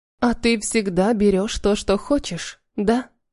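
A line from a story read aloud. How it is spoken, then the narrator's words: Quiet question. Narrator (Russian): спросила тихо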